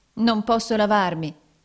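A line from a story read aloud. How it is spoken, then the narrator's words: Exclamation. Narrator (Italian): esclamò Nicola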